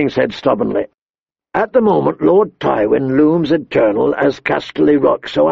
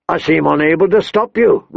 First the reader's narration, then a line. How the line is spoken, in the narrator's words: Robert grumbled